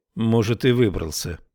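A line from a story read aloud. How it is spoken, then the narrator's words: Gloomy. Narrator (Russian): проговорила Тесла мрачно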